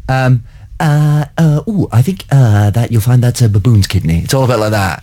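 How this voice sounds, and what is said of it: Imitates another person's voice, non-Paisley accent. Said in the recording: “So the accent isn't... It's not Paisley in this one, no... a Darwin off”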